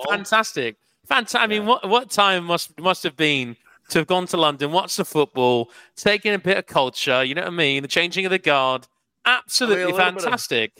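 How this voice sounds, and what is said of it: Put-on British accent. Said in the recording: “Who's got a better British accent, Crowder, me or Witty? ... Witty got you by miles.”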